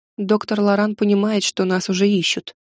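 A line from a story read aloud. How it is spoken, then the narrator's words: Quiet. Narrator (Russian): так же тихо сказала я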